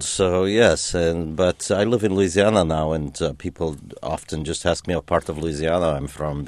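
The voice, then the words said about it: Foreign accent with rolled R's. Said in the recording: “they think my accent is from somewhere over there ... I do keep the accent ... I'm an American with an accent ... roll those R's harder”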